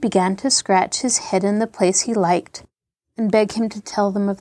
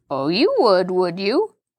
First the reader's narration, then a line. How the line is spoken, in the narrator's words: Halfred remarked hoarsely